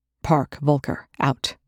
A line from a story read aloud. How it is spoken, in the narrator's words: Young snapped